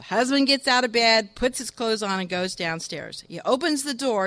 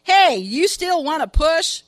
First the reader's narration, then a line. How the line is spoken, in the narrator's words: He shouts